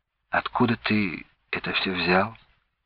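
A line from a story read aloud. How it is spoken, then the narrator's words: Quiet female voice. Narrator (Russian): тихо сказала Надежда Яковлевна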